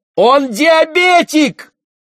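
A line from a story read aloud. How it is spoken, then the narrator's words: Shout. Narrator (Russian): закричала Роксана Кос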